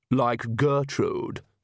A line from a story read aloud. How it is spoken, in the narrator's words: sneered Vlad, and Pam